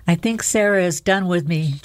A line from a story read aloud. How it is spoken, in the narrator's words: John sighed the words out